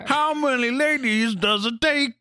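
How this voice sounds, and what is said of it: Imitates another person's voice. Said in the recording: “my Bill Cosby impression”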